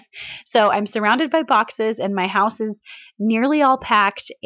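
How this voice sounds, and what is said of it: Sick, breaking, strained voice. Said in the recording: “Can you tell that my voice sounds funny? To me, it sounds funny ... I'm sick today, so I apologize if my voice breaks ... my voice is out”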